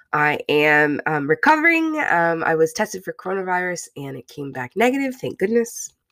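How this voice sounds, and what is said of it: Sick, flu-affected voice. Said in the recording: “I've had the flu, I've been sick. I don't know if you can hear it in my voice.”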